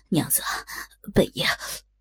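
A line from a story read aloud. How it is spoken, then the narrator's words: Sobbing. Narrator (Chinese): 口中丝丝抽泣道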